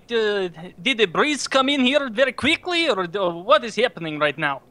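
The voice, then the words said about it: Put-on Russian accent. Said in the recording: “he'll say it like it just turns out that he's Russian ... that's a nice accent right there”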